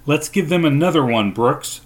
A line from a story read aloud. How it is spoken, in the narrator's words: I shouted, more confident now